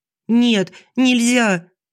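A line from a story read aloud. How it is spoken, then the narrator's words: Desperate squeal. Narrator (Russian): взвизгиваю отчаянно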